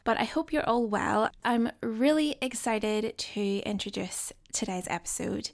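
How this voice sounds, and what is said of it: Slightly croaky morning voice. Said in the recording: “my voice sounds a little bit croaky, that's also because you're the first people that I've spoken to today”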